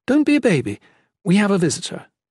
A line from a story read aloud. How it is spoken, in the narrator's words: Merta said cheerfully